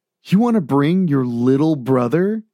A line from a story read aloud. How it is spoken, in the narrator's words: James asked with a chuckle